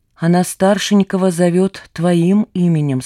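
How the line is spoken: Plain. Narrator (Russian): сказал мой наставник

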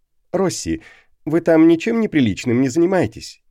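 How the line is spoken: Laughing. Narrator (Russian): рассмеялся

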